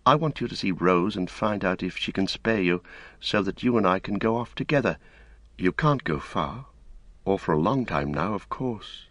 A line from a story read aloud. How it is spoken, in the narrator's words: he said a little wistfully